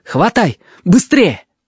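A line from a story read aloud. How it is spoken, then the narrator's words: Shouted. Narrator (Russian): Конвей крикнул Приликле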